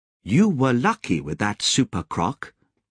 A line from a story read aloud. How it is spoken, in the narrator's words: Lobsang said